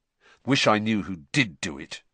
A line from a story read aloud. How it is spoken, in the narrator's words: said Harry bitterly